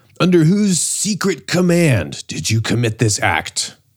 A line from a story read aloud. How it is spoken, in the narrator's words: they shout at Phoebidas